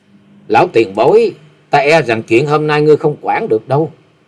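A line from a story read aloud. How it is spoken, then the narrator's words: Cold. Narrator (Vietnamese): lạnh lùng nói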